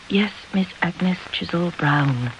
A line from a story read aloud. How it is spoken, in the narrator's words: whispered Charlotte